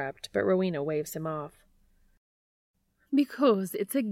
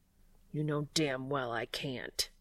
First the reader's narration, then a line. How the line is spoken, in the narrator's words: he growls